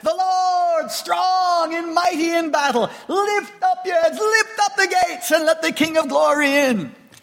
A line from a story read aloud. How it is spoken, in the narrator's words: the first group shouted back